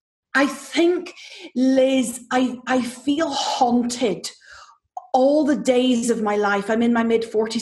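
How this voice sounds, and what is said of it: Irish accent. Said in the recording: “excuse the accent, ... if you really want to do it the Irish way”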